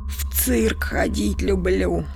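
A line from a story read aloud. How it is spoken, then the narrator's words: Breathy exhale. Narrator (Russian): выдохнула Танюша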